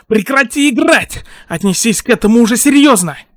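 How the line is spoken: Shouted. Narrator (Russian): Тодороки крикнул

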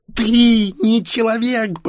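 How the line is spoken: Near shriek. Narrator (Russian): почти завизжала Ксения

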